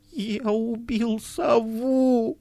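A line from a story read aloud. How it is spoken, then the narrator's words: Trembling voice. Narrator (Russian): сказал дрожащим голосом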